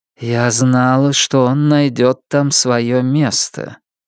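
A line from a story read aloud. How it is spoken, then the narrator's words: Dull, muffled. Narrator (Russian): Жемчужина глухо сказала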